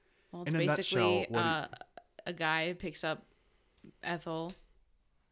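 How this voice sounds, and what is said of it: Usual voice. Nothing is said of it.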